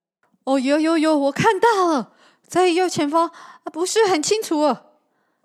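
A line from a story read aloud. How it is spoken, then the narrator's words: Excited shouting. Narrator (Chinese): 矮胖的男人兴奋地叫着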